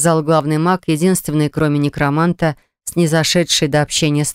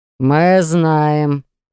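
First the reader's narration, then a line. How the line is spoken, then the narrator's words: Rude interruption. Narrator (Russian): грубо оборвали его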